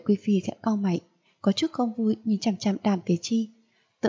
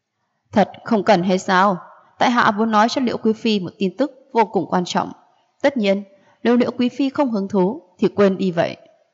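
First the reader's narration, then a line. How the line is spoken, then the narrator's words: Laughing. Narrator (Vietnamese): bật cười nói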